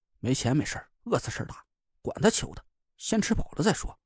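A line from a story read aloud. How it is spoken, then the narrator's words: Muttering through clenched teeth. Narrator (Chinese): 咬了咬牙，自己嘟囔了一句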